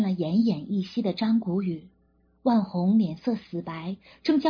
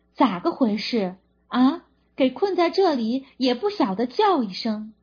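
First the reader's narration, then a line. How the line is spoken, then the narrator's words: Loud, caring scolding. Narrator (Chinese): 秦政委大声呵斥地表示对他的心疼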